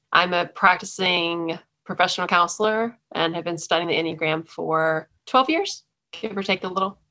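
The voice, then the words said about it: Texan accent. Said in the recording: “I was a lifelong Texan. So that explains the accent.”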